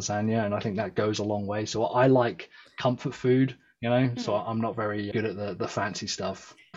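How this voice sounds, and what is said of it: Fancy-sounding foreign accent. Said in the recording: “Just saying lasagna with your accent makes it fancy ... you get away with a lot with this accent”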